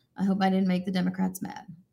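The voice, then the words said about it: Sarcastic delivery. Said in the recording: “That was sarcasm. Sorry, I didn't have my sarcasm font turned on.”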